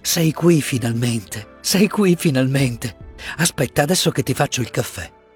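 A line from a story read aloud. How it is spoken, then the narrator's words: Overwhelmed emotional murmur. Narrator (Italian): mormorò lei non trattenendosi più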